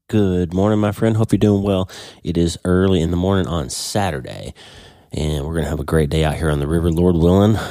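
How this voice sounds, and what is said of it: Congested, slightly odd-sounding voice. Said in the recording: “I'm still pretty congested, sneezing a bit, so I apologize. My voice sounds a little weird still.”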